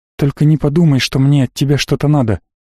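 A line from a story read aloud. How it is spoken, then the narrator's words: Mildly indignant. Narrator (Russian): баронесса слегка возмущенно произнесла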